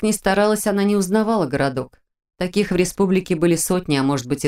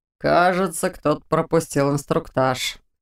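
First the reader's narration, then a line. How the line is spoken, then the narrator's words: Wry snort. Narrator (Russian): хмыкнул другой легионер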